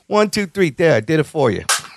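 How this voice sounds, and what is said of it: Put-on Italian accent. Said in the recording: “Why did you give him an Italian accent there? ... You realize he's English.”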